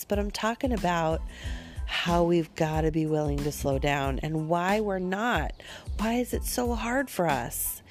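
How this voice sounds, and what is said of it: Slightly odd, sick-sounding voice. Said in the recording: “coming to you on the tail end of a very bad spring cold with a little bit of a weird voice”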